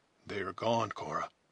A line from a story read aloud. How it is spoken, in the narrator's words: he whispered